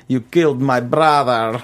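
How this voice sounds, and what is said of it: Mocking imitation of a horrible accent. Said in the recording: “that really bad cave-dwelling girl in, was it last season? ... With a horrible accent.”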